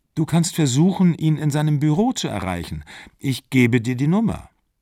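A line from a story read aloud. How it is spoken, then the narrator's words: Calm. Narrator (German): sagte sie im Gegensatz zu ihm ganz ruhig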